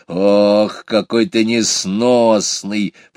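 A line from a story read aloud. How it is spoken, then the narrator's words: Grumbling hedgehog. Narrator (Russian): продолжал ворчать ежик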